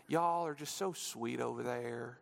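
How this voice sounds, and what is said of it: Put-on Southern drawl. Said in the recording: “a southern drawl”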